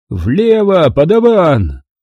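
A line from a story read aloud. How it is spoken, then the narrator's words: Shouted. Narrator (Russian): крикнул Куай-Гон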